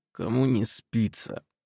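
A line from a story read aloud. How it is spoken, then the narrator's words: Tired, through gritted teeth. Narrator (Russian): процедил сквозь зубы мой утомленный партнер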